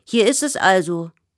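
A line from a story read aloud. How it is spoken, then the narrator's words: Calling out. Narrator (German): ruft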